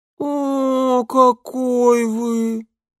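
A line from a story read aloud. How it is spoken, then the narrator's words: Drawn-out disappointed chorus. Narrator (Russian): протянули они разочарованно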